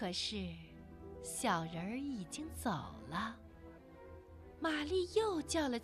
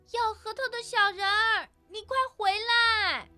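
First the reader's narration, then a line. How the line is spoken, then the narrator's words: Shrieking. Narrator (Chinese): 玛丽尖叫着说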